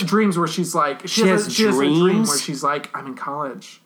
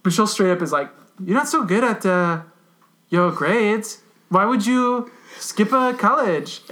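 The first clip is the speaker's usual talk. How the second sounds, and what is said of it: Voices a character. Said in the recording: “doing a Michelle voice”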